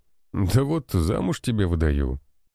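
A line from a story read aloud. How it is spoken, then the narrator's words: Snorting remark. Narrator (Russian): хмыкнул он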